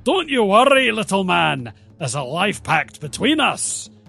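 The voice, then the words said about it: Put-on Scottish brogue, character voice. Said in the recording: “Have you always been Scottish? ... I don't know if you'd spun the accent wheel ... I've always had a Scottish brogue.”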